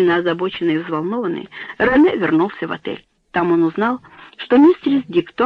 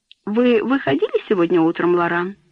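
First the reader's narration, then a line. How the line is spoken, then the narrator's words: Plain question. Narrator (Russian): спросила она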